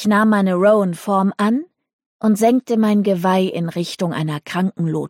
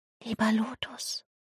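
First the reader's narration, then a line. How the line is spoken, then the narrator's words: Whisper. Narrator (German): flüsterte ich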